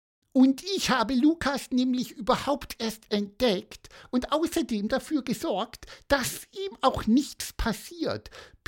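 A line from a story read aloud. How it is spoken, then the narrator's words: Self-important squeak. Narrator (German): piepste Pieper wichtig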